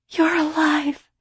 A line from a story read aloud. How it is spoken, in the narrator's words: she cried into my shoulder